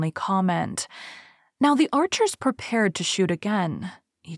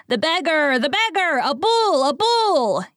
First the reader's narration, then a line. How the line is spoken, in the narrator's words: yelled the fickle mob